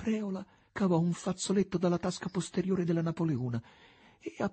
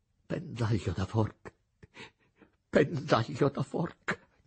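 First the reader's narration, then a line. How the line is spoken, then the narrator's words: Groan. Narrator (Italian): gemette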